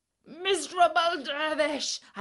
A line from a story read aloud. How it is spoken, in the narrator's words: I shrieked